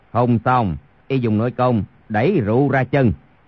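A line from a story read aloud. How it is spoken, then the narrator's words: Lowered voice. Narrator (Vietnamese): Chu Thông hạ giọng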